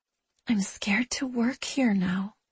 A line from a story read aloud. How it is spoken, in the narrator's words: she whispers